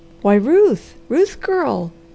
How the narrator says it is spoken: he exclaimed

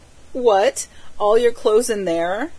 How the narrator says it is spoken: she cried

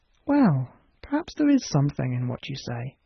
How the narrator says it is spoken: murmured the doctor

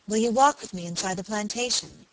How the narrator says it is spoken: she said

